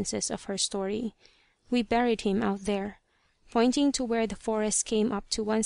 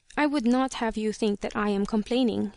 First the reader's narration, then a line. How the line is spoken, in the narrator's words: she said hastily a moment later, as if she was afraid I would get that impression